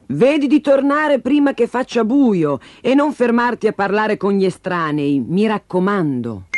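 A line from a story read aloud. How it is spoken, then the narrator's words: Mother calling out. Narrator (Italian): La mamma gridò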